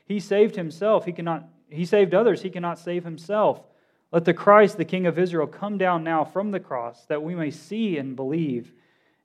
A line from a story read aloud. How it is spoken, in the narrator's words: the chief priests and the scribes mocked him one to another, saying